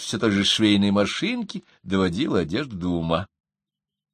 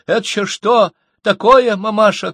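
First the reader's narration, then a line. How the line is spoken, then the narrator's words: Shouting. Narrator (Russian): кричала она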